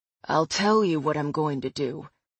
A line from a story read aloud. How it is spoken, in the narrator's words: he growls